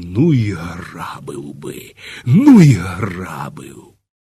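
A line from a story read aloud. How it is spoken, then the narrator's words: Furious passionate whisper. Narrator (Ukrainian): він люто й пристрасно шепотів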